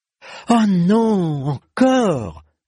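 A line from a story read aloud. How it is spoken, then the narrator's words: Eldest sibling groaning. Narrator (French): gémit l'aîné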